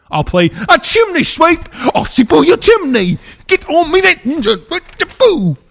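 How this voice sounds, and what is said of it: Put-on British accent, gets weird. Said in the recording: “I might as well just do a movie in a British accent ... That accent got weird.”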